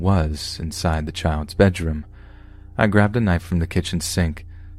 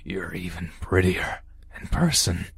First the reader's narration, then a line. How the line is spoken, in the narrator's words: he wheezed